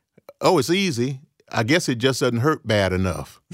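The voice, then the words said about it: Put-on American country accent. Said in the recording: “That's my best country accent”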